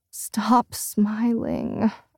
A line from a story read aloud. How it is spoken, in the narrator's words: groan